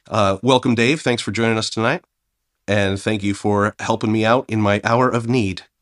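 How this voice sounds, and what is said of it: Sick, unwell-sounding voice. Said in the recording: “as you can probably tell by my voice, I am not sounding too well tonight. I caught double pneumonia”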